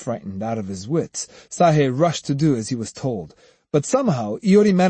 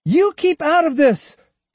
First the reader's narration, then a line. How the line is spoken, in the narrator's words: Iori cried